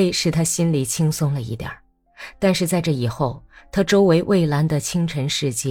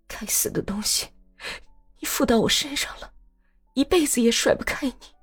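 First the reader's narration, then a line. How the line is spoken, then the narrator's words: Low mutter, near tears. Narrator (Chinese): 他深深地叹了一口气，笑了笑，觉得喉咙里有一股突然涌上来的要尽情的哭一场的热气，低声自言自语道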